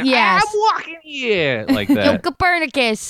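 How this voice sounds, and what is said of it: Put-on Brooklyn accent. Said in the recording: “I would like to hear your Brooklyn and then your Boston.”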